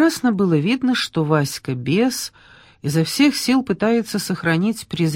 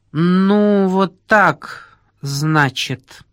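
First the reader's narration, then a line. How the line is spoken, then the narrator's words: Through teeth, suppressed rage. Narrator (Russian): Процедил он, все еще превозмогая бешеную злобу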